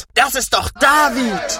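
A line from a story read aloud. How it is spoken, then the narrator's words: Group shouting. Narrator (German): schrien sie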